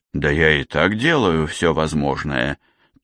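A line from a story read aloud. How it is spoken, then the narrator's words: Defensive mumble. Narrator (Russian): тоном оправдания промямлил Лейк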